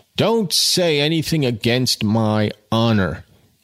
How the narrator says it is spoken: enjoined Jude hotly

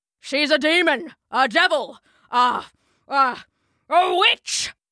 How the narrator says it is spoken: spat Mr

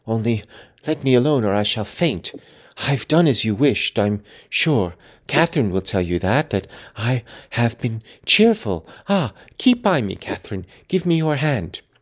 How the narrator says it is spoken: he panted

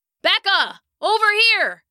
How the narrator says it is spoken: he shouted

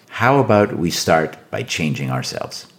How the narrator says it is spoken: offered, in a very calm tone of voice

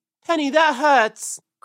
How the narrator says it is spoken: cried Peter, as the thorns pulled his fur

